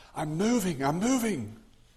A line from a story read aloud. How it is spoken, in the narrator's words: wobbling side to side, and he shouted